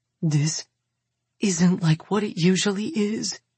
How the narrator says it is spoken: Billy whispers

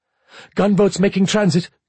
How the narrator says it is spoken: Crete's tactical officer snapped

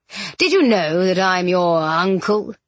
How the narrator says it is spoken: He chuckled darkly

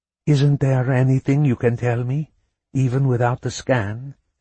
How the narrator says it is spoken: she asked, managing to keep her voice calm

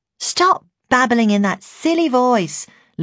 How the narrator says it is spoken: Lucy eventually snapped

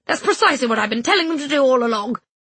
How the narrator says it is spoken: B snapped

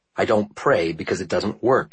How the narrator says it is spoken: he said curtly

